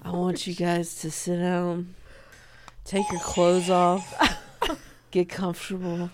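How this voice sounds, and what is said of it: Impression of a friend as cult leader. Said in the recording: “Will you do an impression of me as a cult leader? ... here's what I see of your cool”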